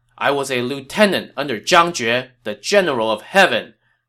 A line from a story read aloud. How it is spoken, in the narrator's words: the man in the yellow turban shouted